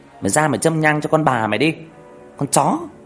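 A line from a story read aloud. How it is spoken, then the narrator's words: Hissing. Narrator (Vietnamese): rít lên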